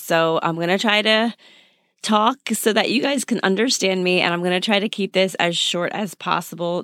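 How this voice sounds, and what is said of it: Badly hoarse, damaged voice. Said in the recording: “my voice is destroyed right now. I had a head cold the last 2 days, and it's definitely taken its toll on my voice ... it's bad”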